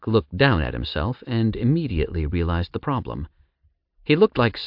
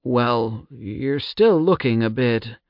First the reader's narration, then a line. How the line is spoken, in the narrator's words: Jowl hesitantly said